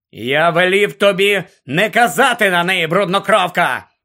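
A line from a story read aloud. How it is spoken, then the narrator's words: Barking. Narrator (Ukrainian): гаркнув Гаррі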